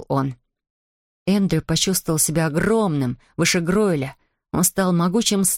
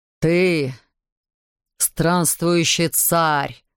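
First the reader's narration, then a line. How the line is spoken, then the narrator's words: Booming voice. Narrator (Russian): прогремел он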